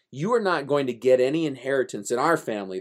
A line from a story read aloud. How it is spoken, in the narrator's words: they said